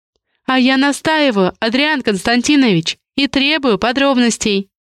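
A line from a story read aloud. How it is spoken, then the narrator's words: Sly laugh. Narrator (Russian): коварно рассмеялась Раиса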